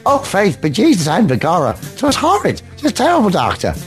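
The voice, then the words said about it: Generic put-on Irish accent. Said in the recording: “I'm not sure how good my Irish accent is. It might be fairly generic.”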